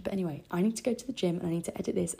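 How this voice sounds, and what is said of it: Hoarse, strained sore-throat voice. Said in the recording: “my voice sounds so horrific ... my throat is on fire right now”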